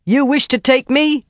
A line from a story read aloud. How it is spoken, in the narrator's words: Avienda shouted